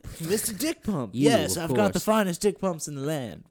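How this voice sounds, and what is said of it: Put-on salesman character voice. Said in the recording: “Why did your accent change?”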